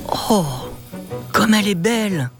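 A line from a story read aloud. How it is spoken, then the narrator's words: Admiring exclamation. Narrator (French): s'exclame Matteo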